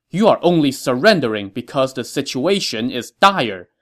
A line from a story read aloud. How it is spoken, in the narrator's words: Ma Chao told the governor angrily